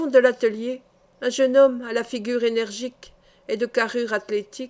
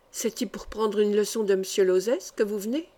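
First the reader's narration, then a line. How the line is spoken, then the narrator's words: Quiet female question. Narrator (French): demanda l'une d'elles à voix basse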